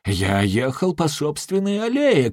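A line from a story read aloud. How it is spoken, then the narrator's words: General shouting. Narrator (Russian): кричал генерал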